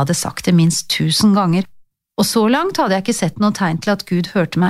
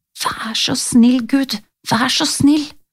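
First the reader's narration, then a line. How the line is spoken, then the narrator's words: Whispered. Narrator (Norwegian): hvisket jeg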